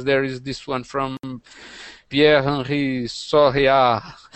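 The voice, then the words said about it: Put-on French accent. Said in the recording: “I'm trying to fake my French accent.”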